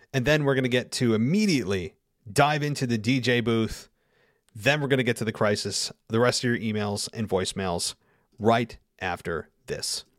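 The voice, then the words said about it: Slightly hoarse voice. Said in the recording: “give my voice a quick rest. I need it. I'm feeling a little bit hoarse”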